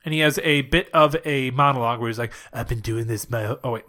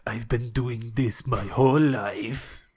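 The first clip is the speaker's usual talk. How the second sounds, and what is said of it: Imitates another person's accent. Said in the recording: “let me try to do his accent.”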